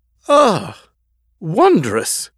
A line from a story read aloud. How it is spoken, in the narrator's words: exclaimed